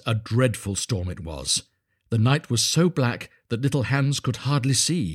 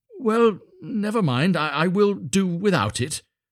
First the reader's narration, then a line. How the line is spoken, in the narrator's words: cried little Hans